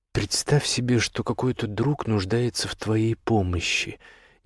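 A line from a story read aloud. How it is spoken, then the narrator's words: Hesitant, cautious. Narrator (Russian): неуверенно заговорил Бартоломео, опасаясь сболтнуть лишнего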